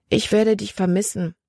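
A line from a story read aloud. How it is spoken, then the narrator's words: Gentle. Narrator (German): sagte sie sanft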